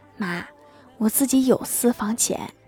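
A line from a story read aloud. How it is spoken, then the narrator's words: Moved, quiet. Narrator (Chinese): 郭大侠非常感动，小声的说道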